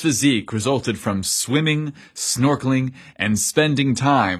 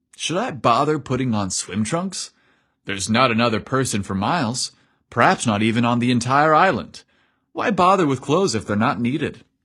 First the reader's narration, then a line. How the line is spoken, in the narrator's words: Evan chuckled bashfully